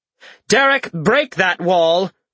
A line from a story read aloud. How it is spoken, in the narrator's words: Orden shouted